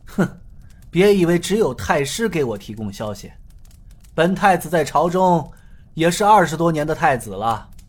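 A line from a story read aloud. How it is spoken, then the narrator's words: Sneering. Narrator (Chinese): 太子冷笑道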